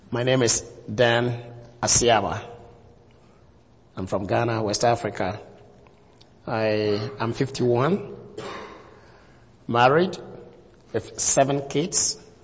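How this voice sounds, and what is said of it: Ghanaian West African accent. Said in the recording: “I hope you are going to enjoy my accent.”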